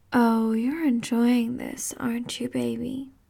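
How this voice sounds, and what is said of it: Sultry whisper. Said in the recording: “My sexy voice whispering in your ear like this.”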